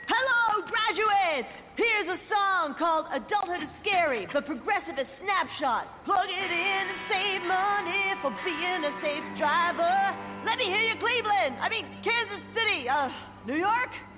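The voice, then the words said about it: Rock band frontman character voice. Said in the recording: “my impression of a geographically challenged rock band delivering a commencement speech”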